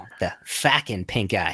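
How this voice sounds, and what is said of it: Put-on Rhode Island accent. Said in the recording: “The Rhode Island accent though.”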